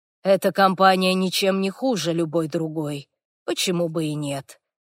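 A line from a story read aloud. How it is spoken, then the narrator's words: Quiet. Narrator (Russian): Хорвик тихо сказав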